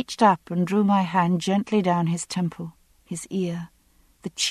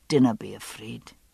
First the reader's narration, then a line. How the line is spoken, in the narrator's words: he said softly